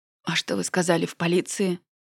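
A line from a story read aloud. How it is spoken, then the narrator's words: Tearful question. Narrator (Russian): Сквозь слезы спросила я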